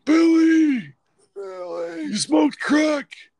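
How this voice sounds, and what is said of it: Impression of Stan's grandpa, South Park. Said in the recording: “That impersonation is from, I think, Stan's grandpa on South Park.”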